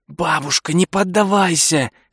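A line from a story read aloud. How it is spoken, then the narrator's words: Whispering. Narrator (Russian): шептал Дуглас в библиотеке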